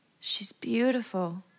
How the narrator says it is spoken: Danny murmured

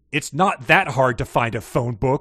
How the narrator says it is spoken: I growled

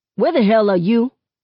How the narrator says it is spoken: Seven barks

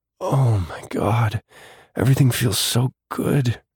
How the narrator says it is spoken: she moaned

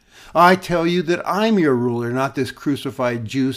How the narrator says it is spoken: said the Empress

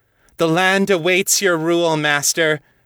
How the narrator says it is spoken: Terra shouted, in a voice full of joy and triumph

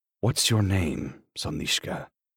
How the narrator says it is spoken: I murmur

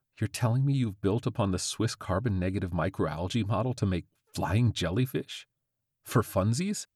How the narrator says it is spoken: Rashid laughed

